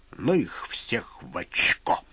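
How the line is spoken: Angry eagle beak-clack. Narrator (Russian): зло клацкнул клювом орел

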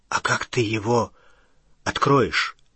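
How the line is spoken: Frightened question. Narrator (Russian): испуганно спросил Рон

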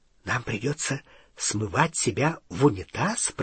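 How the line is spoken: Whisper. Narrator (Russian): прошептал Рон

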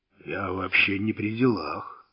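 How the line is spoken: Hoarse. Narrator (Russian): хрипло сказал

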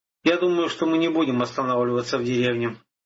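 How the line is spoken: Plain. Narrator (Russian): сказал воин

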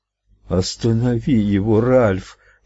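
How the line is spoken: Moan. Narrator (Russian): простонала Луиза

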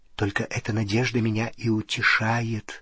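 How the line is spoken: Whisper. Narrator (Russian): прошептала она

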